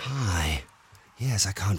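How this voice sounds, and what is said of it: Put-on sexy voice. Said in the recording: “sexy voice ... I'm just doing an impression of her doing it”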